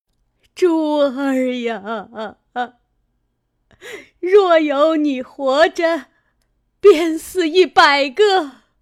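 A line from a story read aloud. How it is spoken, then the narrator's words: Wailing, crying out in grief. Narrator (Chinese): 因哭出苦命儿来，忽又想起贾珠来，便叫着贾珠哭道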